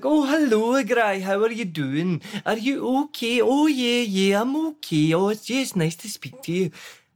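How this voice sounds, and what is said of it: Put-on rural Scottish Teuchter accent. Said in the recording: “immediately he would put on this Chuchter accent”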